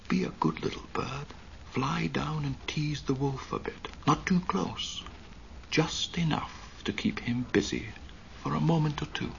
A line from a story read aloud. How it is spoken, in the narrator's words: He whispered